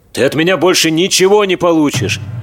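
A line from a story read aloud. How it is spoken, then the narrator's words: Nervous, anxious shouting. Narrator (Russian): нервно и встревоженно кричал Михаил Юрьевич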